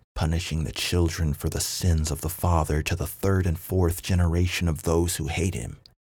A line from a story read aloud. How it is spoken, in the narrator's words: muttered as he brought the cup to his lips